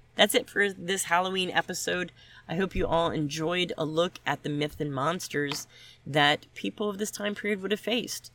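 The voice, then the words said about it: Sniffly voice with a cold. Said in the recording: “I apologize for my voice ... I have a cold. ... So I apologize if I sound sniffly.”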